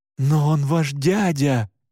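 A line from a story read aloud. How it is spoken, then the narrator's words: Disgusted exclamation. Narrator (Russian): с отвращением воскликнул я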